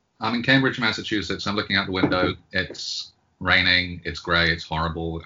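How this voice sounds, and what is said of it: British accent with slight American tinge. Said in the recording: “your accent could lead people to believe you're in the other Cambridge ... I am British, but the way that I had that weird D there rather than British indicates the 10 years that I've spent living in the United States ... it can be a little bit mid-Atlantic”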